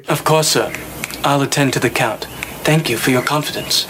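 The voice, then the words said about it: Soft put-on educated English accent. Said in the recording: “trying to do a sort of educated English accent ... It's very soft”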